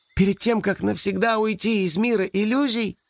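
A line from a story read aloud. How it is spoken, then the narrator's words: Thin high voice. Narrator (Russian): тоненьким голосом сказала свинка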